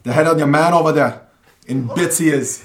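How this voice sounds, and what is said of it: Put-on strong Dublin accent. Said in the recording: “this should be going on a strong Dublin accent”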